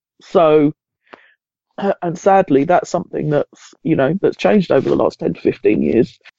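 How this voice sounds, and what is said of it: Congested voice from a cold. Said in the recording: “I've got a bit of a cold. ... I'm not very well”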